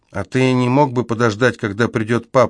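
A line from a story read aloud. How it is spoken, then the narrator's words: Plain. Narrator (Russian): спросила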